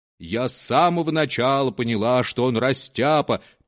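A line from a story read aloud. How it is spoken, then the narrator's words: Rich sing-song voice. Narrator (Russian): пела сдобным голосом кухарка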